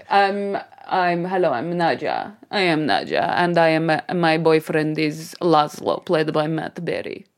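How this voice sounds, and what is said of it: Mixed Eastern European character accent. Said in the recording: “a flavour of the accent ... it's very mixed. It's like Transylvania meets ... you're going a bit Cockney again ... it's like Russian cum ... Eastern ... European”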